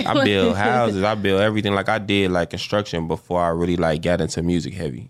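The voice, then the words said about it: Chicago accent. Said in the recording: “y'all can hear a Chicago accent too... They don't say car, they say car... You can just hear that Chicago accent”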